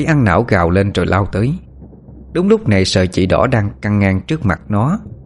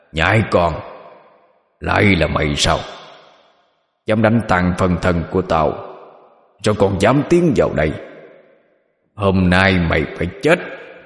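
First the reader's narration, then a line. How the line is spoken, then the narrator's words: Growling. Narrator (Vietnamese): Nó nhìn Phượng mà gầm gừ nói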